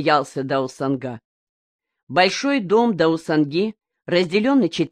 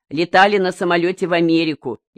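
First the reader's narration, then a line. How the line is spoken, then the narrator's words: Snide young person. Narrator (Russian): ехидно спросил кто-то из молодых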